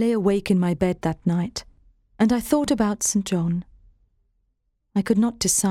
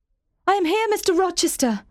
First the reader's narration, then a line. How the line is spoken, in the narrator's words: cried